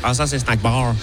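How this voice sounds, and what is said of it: Imperfect put-on Québécois accent. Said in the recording (French): “c'était un accent canadien si jamais, hein. Je suis désolé, il n'est pas parfait. ... Québécois”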